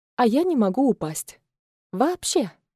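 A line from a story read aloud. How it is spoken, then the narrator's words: Playful exclamation. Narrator (Russian): задорно воскликнула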